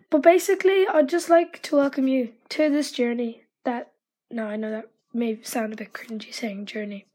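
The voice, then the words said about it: Nervous-sounding voice. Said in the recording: “as you can probably tell by my voice, I'm a bit nervous”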